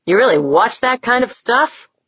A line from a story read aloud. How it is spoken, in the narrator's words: Jaeger scoffed